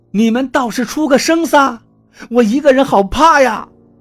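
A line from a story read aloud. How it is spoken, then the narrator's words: Finally said aloud. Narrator (Chinese): 我还是把这句话说出来了，也不怕他们笑话了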